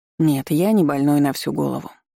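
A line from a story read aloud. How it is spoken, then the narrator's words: Calm objection. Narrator (Russian): спокойно возразил незнакомец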